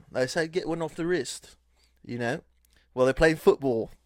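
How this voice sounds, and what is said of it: Put-on English accent. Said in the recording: “that was my best attempt at an English accent”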